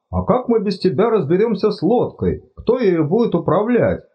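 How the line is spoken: Exclamation. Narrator (Russian): воскликнул Чудакули

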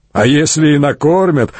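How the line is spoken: Chuckle from behind. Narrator (Russian): хохотнул тот, что стоял позади, невидимый

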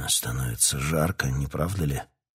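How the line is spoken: Embarrassed muttering king. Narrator (Russian): смущенно пробормотал король

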